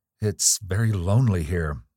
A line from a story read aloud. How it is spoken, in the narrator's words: said Evelyn, nervously and speaking as if she dreaded to disturb the silence